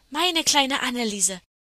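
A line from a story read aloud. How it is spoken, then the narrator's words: Calling out. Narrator (German): rief das andere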